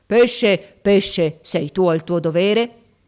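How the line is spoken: Terrible voice. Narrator (Italian): con voce terribile gli disse

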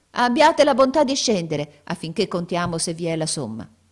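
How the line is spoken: Exclaiming. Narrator (Italian): la vecchia esclamò

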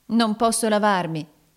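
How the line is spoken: Exclaimed. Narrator (Italian): esclamò Nicola

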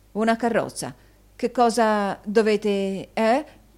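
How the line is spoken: Stammering. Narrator (Italian): balbettò Newman

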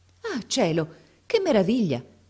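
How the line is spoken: Exclaimed. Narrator (Italian): esclamò allora

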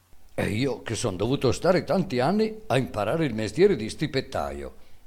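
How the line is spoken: Boy exclaiming. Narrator (Italian): esclamò il ragazzo

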